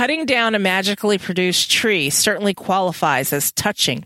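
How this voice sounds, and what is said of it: Usual voice. Nothing is said of it.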